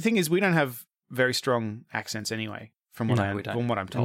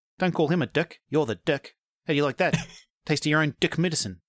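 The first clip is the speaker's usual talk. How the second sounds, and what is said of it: Put-on New Zealand accent. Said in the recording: “he's a Kiwi. Yeah, and they sound like this... That's my Murray accent.”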